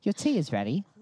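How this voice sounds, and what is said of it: Attempted British accent. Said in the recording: “I was trying to do a British accent there.”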